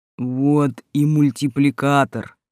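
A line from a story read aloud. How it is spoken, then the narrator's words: Deep booming creature. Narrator (Russian): прогудел снежный человек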